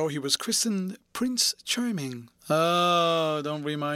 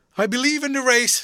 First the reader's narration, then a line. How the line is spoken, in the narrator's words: she cried